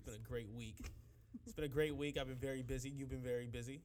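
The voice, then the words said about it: Sick, weird-sounding voice. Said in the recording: “I'm a little bit under the weather, so please forgive me if my voice sounds weird.”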